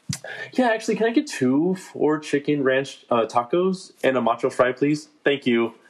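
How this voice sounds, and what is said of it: Friendlier customer service voice. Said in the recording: “my voice changed ... a little more friendlier ... I call it my customer service voice.”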